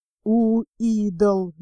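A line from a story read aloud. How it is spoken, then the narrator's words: Boatswain's angry whisper. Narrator (Russian): злобно прошептал боцман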